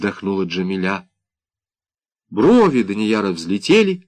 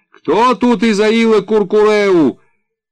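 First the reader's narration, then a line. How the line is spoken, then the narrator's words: Shouted. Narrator (Russian): Солдат крикнул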